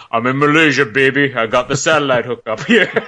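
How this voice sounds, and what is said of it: Deep, sexy impersonated voice. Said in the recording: “oh, and a deep, sexy voice.”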